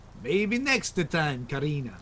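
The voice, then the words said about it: Exaggerated put-on Italian accent. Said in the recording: “Oh, that stupid Italian accent. He sounded like Super Mario Brothers. ... It was the Godfather.”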